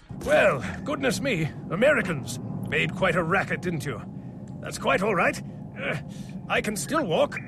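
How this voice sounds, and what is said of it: English accent, Captain Price. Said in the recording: “did have its own completely different style of English accent ... That's the original Captain Price.”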